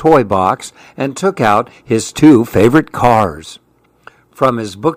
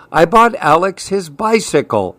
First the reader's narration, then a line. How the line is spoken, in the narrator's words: Uncle Mike exclaimed to Leander, his father